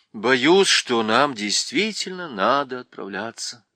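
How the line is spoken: Sigh. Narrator (Russian): вздохнул принц

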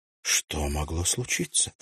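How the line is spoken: Whisper. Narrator (Russian): прошептала Нора

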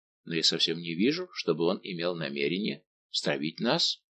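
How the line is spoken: Plain. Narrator (Russian): ответил Монк

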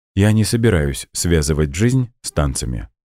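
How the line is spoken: Plain. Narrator (Russian): сказала она

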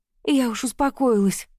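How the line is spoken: Exhaled words. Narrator (Russian): выдохнула

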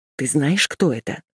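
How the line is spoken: Hissing. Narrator (Russian): прошипел он

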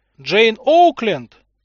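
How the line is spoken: Distant shout. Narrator (Russian): крикнул один из них издалека

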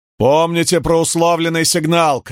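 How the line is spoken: Shouting. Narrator (Russian): крикнул он трубачам

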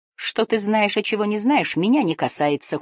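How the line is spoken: Cold reply. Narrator (Russian): холодно ответил страж моста

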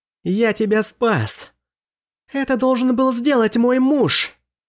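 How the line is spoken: Ear-ringing shriek. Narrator (Russian): От ее визга у меня в ушах зазвенело

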